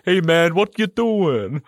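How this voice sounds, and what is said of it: Put-on Italian accent. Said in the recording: “he's supposed to be Italian ... he's got like the proper accent as well”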